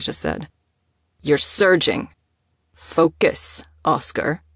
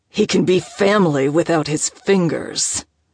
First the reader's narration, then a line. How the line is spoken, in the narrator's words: Oscar grunted